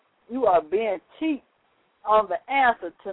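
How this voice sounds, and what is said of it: Usual voice. Nothing is said of it.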